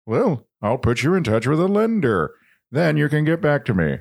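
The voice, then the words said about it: Imitates another person's voice. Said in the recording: “Ted Koppel ... that's like my best impression”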